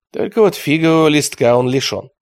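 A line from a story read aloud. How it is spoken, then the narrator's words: Gloomy. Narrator (Russian): мрачно сказал Микелота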